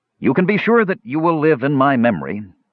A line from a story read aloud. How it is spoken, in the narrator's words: the half-elf said